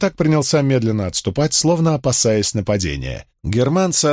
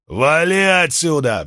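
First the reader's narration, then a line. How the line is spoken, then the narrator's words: Roaring. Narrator (Russian): взревел Эномай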